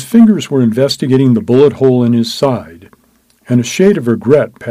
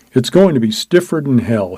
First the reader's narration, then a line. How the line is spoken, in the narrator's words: he said